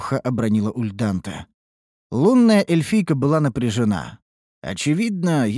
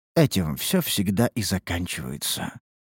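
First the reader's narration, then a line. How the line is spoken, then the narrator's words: Quiet remark with sigh. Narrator (Russian): обронила негромко Лейтарис и вздохнула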